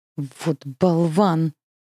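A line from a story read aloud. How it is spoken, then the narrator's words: Angry blurt. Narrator (Russian): злобно выпаливает Харон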